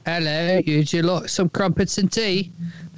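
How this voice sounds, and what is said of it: Put-on English accent. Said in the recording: “That's just the accent. ... someone has an English accent.”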